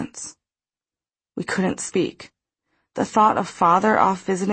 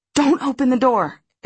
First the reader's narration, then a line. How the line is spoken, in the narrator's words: exclaimed Margot to stop me